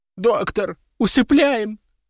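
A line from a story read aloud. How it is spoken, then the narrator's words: Blurted while sobbing. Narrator (Russian): с порога выпалила она, рыдая в три ручья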